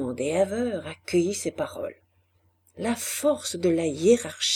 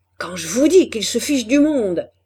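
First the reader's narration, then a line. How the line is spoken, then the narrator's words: Shouting. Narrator (French): criait l'ingénieur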